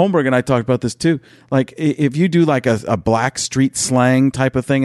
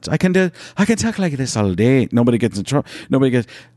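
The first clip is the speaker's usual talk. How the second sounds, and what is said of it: Put-on Irish accent. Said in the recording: “I can do an Irish accent”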